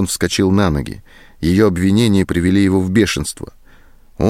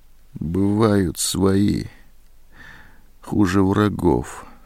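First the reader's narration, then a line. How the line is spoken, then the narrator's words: Quiet. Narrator (Russian): тихо сказала Зоська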